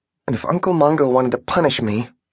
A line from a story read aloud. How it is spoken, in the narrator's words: muttered to herself